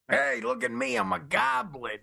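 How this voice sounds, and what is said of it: Poor imitation of another person's voice. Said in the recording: “terrible Danny DeVito impression”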